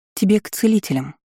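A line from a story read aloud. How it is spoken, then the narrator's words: Calm remark. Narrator (Russian): заметила я спокойно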